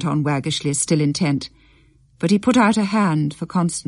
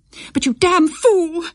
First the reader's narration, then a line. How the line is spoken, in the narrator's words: cried Constance, starting up very suddenly